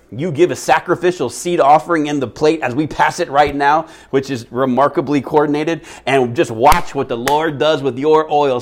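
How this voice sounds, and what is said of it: Terrible preacher impersonation. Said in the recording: “that's a really terrible impersonation”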